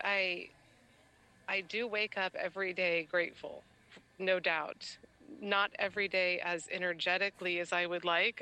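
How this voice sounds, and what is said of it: Slightly hoarse voice. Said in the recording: “I'm sick right now, and so my voice is a little hoarsey.”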